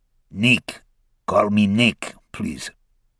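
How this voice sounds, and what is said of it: Heavy Russian accent. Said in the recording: “His accent was heavy ... The Russian”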